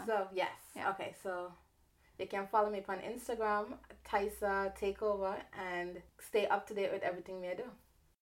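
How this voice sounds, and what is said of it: Heavy Caribbean patois accent. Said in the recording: “heavy Caribbean accent ... like Rihanna and Nicki Minaj kind of ... it's like patois ... Do you want to hear a Caribbean accent?”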